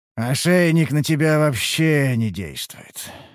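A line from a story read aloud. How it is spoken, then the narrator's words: Sighing. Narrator (Russian): вздохнул Харан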